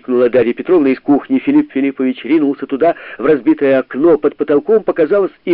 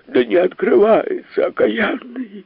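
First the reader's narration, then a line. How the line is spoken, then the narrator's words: Frightened reply. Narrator (Russian): испуганно ответил полиграф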